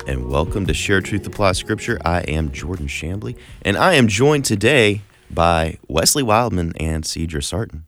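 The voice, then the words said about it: Polished radio-announcer voice. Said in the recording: “You got a great radio voice ... You got a great radio voice”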